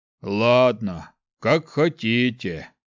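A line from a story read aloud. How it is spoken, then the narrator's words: Grumble. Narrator (Russian): Проворчал он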